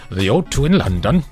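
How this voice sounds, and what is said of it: Bad put-on Welsh accent. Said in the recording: “That's a dreadful Welsh accent.”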